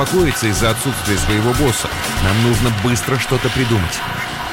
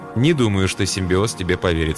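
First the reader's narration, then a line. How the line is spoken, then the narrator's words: Calm remark. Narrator (Russian): спокойно заметил Сомерсет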